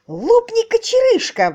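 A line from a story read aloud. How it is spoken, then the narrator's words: Exclaimed. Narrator (Russian): воскликнул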